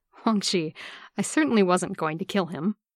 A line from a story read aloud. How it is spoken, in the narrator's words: Lan Zichun chuckles and says